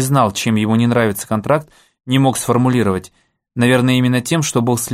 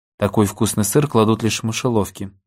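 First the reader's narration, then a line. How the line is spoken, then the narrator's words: Muttered. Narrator (Russian): пробормотал Алекс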